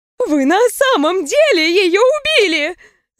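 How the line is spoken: Shrieking. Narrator (Russian): завизжала невеста

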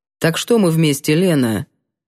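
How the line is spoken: Cold. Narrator (Russian): Холодно обратился он

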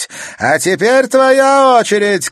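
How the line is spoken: Shouting. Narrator (Russian): крикнула она Катерине

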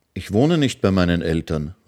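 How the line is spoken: Plain. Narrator (German): sagte das Mädchen

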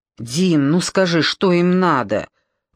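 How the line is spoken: Sudden angry question. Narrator (Russian): вдруг зло спросила Милка

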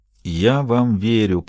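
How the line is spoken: Young whisper. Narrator (Russian): прошептал молодой голос

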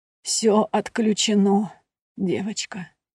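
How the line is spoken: Sad, smiling. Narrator (Russian): печально улыбнулась

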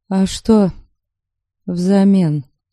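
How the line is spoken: Dejected question. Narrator (Russian): Уныло вопросила

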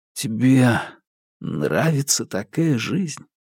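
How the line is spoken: Hoarse question. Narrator (Russian): хрипло спросил Маркус

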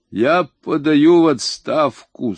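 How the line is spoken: Muffled voice. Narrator (Russian): сказал он приглушенным голосом

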